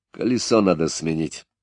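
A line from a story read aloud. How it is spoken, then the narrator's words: Angry driver. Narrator (Russian): Шофер, злобно кривясь, сказал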